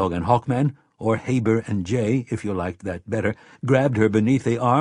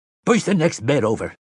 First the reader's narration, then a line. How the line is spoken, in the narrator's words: the doctor shouted